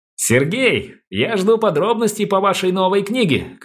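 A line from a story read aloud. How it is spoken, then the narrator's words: Shouted after someone. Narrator (Russian): крикнул Алексей нам в спину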